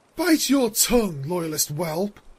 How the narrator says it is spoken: the Moon Princess spat

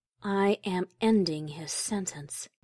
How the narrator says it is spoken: the princess replied softly

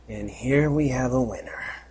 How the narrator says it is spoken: muttered the stallion

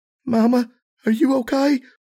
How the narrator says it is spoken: Serenity said, her voice thick with panic

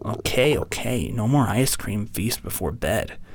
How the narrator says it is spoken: he grumbled

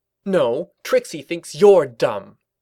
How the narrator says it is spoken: Trixie snapped back

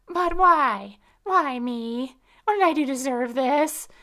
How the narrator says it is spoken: I continued to wail

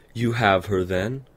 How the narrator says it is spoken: Luna said loudly

